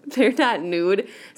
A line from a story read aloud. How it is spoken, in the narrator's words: said Jilly Boo, giggling